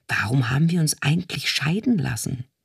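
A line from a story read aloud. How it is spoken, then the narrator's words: Whispered. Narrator (German): flüsterte er Isabella zu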